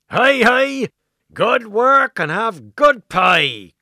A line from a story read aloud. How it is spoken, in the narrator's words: cried Mary Blick of Blackmore